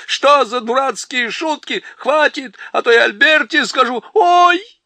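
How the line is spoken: Shouting. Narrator (Russian): закричали

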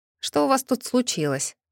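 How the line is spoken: Wry snort. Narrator (Russian): хмыкнул Кейман

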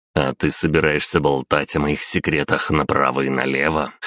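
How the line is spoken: Smirking grunt. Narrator (Russian): хмыкнул я

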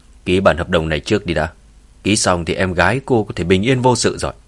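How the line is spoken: Cold man. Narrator (Vietnamese): gã đàn ông kia lạnh lùng nói

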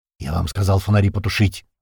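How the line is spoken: Hissing man. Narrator (Russian): Вновь зашипел мужчина

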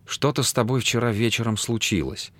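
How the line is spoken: Timid. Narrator (Russian): робко произнесла она

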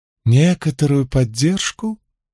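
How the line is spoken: Silky questioning voice. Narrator (Russian): шелковым голосом переспросил Крас

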